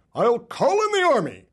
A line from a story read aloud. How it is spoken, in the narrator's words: holler